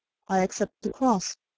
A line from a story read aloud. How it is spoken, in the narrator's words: a white-faced man who calmly said